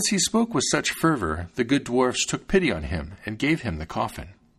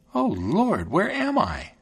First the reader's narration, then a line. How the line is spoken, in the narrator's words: she exclaimed